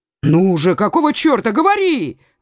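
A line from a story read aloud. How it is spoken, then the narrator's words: Exclamation. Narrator (Russian): воскликнул Коконас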